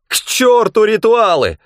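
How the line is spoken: Yelling. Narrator (Russian): заорал он

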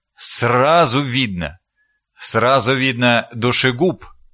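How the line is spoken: Calm. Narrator (Russian): спокойно закончил мейстер Филипп

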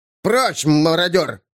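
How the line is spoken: Growl. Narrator (Russian): прорычал он на торговом наречии

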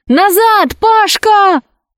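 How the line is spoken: Shout. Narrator (Russian): крикнула Алиса

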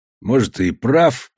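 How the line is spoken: Muttered. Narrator (Russian): пробормотал Костоправ

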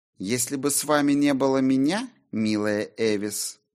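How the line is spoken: Purring voice. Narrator (Russian): промурлыкала Сильвия

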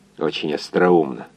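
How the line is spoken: Muttered through teeth. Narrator (Russian): пробормотал сквозь зубы инженер

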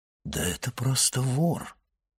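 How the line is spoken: Disappointed mutter. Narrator (Russian): разочарованно пробормотал Монте-Кристо

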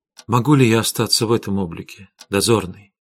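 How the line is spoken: Quiet question. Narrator (Russian): тихо спросила Арина

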